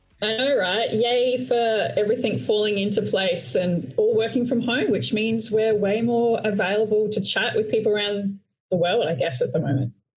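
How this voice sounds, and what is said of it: Australian accent. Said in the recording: “I'm Australian with my Australian accent.”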